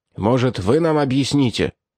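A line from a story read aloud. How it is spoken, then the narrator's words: Sharp. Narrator (Russian): резко сказал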